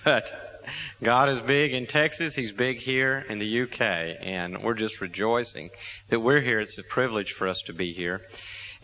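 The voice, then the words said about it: Texan accent. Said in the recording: “I do speak Texan.”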